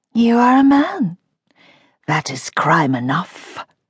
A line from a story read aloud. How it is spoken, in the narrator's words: Bella hissed